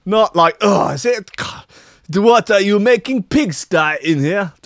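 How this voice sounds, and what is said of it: Put-on unidentified accent. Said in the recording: “Don't know what accent's that.”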